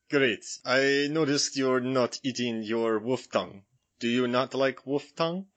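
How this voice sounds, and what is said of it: Gary Oldman's Dracula Romanian accent. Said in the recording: “So I'm going to be playing Gary Oldman from Dracula... So you're going to do a British guy doing a Romanian accent.”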